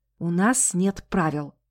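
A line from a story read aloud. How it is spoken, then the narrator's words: Whisper. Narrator (Russian): шепнула она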